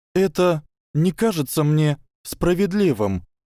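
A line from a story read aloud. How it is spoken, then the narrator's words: Trembling voice. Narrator (Russian): сказала Гермиона дрожащим голосом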